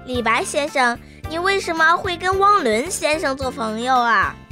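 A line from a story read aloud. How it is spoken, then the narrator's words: Sudden loud question. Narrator (Chinese): 彤彤突然开口，大声地问道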